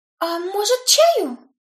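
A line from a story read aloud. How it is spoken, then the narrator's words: Confused, hesitant offer. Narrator (Russian): растерянно предложила хозяйка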